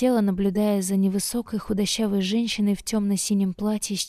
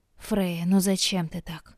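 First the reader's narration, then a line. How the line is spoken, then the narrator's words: Sighing mother. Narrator (Russian): вздохнула мама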